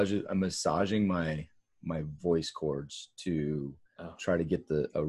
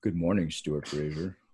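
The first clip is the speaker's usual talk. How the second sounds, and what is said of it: Attempted deep radio announcer voice. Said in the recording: “radio voice ... Let's hear your best radio voice. ... Terrible.”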